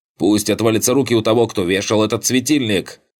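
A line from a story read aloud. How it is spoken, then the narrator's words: Shouting. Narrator (Russian): кричал Джайп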